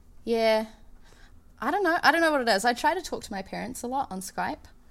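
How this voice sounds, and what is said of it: New Zealand accent. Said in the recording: “you've kept your accent ... the New Zealand accent”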